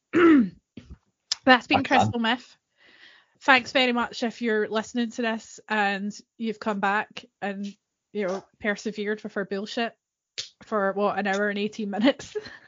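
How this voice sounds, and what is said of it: Voice going, strained and hoarse. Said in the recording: “you can hear my voice is going”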